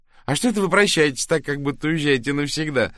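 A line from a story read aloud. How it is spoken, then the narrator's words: Laughing. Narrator (Russian): рассмеялась Лили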